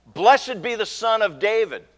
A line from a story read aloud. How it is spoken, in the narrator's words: the crowd on Palm Sunday shouting